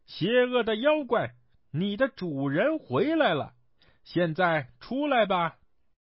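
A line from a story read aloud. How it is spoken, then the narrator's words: Loud shouting. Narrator (Chinese): 孙悟空对着黄眉大喊道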